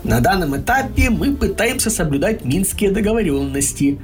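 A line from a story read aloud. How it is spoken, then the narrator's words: Plain. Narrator (Russian): сказал Кролик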